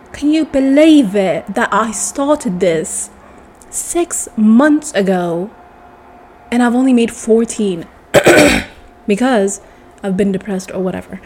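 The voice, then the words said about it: Put-on British accent, slipping. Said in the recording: “my British accent is like getting so bad”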